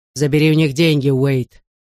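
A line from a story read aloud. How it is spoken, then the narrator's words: Growl. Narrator (Russian): рыкнул Большое Дуло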